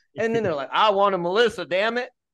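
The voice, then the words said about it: Put-on Southern American accent. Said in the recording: “I don't know where this Southern accent just came from”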